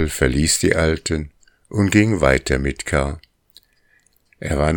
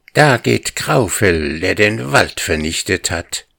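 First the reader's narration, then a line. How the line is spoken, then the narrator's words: Hissing. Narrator (German): fauchte Krühle, so wie alle anderen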